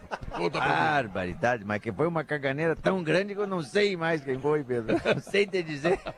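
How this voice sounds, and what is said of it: Imitates another person's voice. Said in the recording (Portuguese): “Impressionante. A precisão dessa imitação.”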